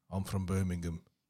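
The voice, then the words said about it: Put-on low Brummie accent. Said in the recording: “sick Brummie accent ... you sound like Peaky Blinders ... I need to be lower”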